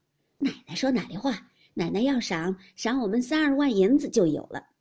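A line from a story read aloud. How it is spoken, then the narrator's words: Laughing. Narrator (Chinese): 赖大家的笑道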